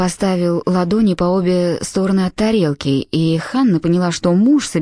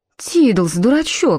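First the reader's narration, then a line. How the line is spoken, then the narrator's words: Short laugh. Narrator (Russian): хохотнула Дебора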